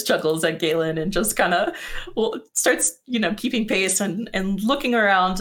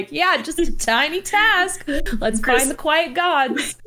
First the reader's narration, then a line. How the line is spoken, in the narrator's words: Leon's like chuckling as she says it